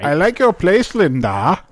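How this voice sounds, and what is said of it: Christopher Lambert impression, weird accent. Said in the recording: “Lambert? ... Like his weird accent.”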